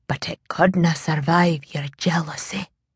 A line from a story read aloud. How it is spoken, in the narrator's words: Troy murmured